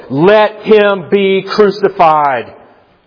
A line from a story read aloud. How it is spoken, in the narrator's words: they shouted all the more